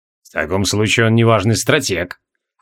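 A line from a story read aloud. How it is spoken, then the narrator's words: Cold. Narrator (Russian): холодно проговорил из Кашмир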